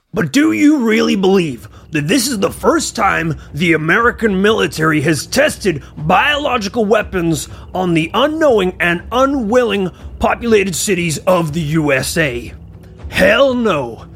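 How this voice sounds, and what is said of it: Dramatic paranormal investigator voice. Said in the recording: “put on my paranormal investigator voice”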